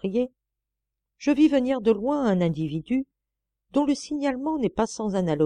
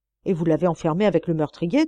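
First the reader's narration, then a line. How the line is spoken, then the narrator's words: Plain question. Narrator (French): demanda Lecoq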